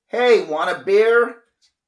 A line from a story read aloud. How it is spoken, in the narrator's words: shouted